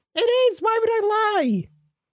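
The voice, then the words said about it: Voice rises higher in pitch. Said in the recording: “your voice went up”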